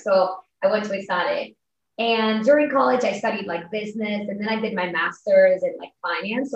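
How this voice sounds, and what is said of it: Spanish accent. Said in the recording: “I'm originally from Spain. You can probably tell from my accent”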